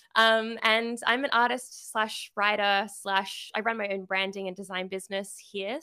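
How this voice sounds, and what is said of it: Australian accent. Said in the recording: “I am from Sydney, Australia. So yes, the accent”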